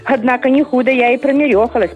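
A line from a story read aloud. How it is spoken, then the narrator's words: Self-mocking laugh. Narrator (Russian): посмеялась она над собой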